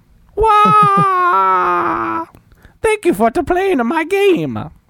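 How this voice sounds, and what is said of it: Cartoonish video game character voice. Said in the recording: “I make Mario sounds all the time ... Also do ... Mario.”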